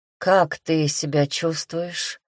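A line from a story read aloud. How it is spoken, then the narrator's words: Sleepy question. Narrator (Russian): сонно поинтересовался зеленоглазый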